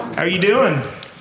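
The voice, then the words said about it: Put-on redneck accent. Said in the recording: “I have a redneck accent all of a sudden”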